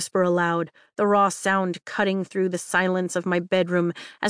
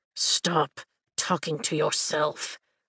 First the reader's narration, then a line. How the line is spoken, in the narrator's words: Taren grumbles as though I've woken him